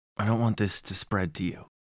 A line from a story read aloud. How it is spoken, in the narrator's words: he said, almost in a whisper